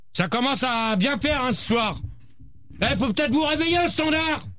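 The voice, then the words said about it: Shouting angrily. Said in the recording (French): “Arrête de crier, toi!”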